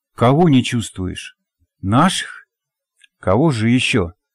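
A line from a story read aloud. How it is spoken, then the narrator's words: Grumbling dog. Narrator (Russian): буркнул пес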